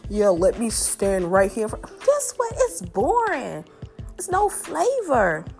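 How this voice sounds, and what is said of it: Southern American accent. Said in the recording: “my southern accent ... My southern charm, the way I talk”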